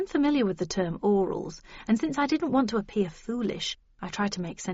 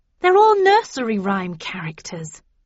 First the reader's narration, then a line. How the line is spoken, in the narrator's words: I exclaimed